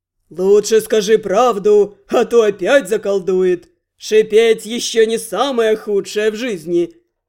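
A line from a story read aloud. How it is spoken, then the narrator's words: Eerie sepulchral mocking warning. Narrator (Russian): предупредил из-за зеркалья насмешник Рент, завывально загробным голосом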